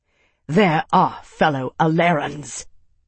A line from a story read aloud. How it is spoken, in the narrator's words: Tavi spat